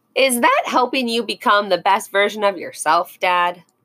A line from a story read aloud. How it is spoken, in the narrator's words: Max asked and giggled